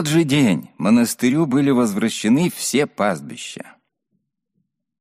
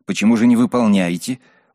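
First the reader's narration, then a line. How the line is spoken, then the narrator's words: Indignant group question. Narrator (Russian): возмущенно спросили чиновники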